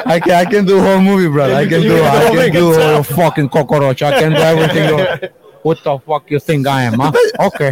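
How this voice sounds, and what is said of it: Spot-on Tony Montana accent impression. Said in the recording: “the accent's absolutely bang on ... is in the Tony Montana ... Tony Montana”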